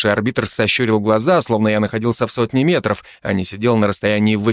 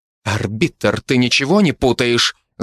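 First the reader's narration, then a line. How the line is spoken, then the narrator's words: Angry mother. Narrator (Russian): зло произнесла мать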